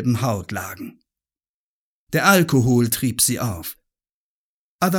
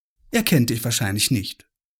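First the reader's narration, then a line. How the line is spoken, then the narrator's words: Plain. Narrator (German): sagte Isabel Kersten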